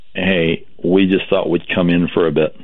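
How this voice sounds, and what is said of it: Very monotone flat voice. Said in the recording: “in a very monotone voice”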